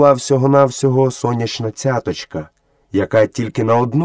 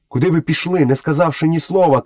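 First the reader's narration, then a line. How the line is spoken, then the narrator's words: Shout. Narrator (Ukrainian): крикнув Мауглі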